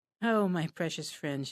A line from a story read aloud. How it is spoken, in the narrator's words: Shelley sighed